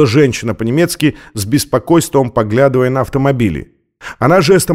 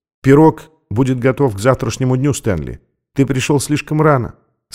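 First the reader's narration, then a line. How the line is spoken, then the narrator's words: Quiet. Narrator (Russian): сказала тихо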